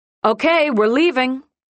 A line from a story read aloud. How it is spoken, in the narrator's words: she says loudly, and not to me, but to whoever is listening